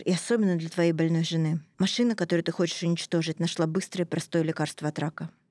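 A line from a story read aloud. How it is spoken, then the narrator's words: Gently. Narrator (Russian): мягко сказал Нидлер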